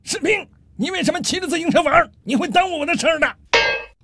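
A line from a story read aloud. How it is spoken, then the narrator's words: Angry shout. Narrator (Chinese): 这中校安德烈非常生气，冲楼下喊道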